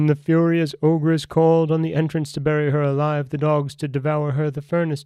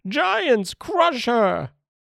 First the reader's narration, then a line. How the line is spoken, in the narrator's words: The ogress cried in a passion